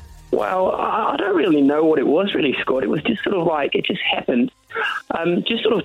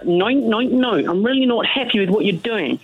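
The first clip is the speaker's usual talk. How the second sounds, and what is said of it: Flamboyant put-on Australian accent. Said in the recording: “We communicate only in a flamboyant Australian accent.”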